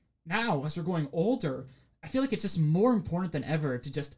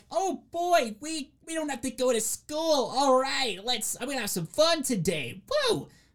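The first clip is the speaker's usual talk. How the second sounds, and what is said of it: Bad impression of excited schoolkids. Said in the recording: “I apologize for that terrible impression.”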